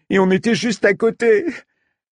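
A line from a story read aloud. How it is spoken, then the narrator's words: Blurted, then bursting into sobs. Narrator (French): lâcha-t-elle avant d'éclater en sanglots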